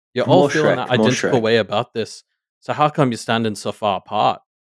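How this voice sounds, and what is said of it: Put-on accent. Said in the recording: “I'm going to do an accent for this one.”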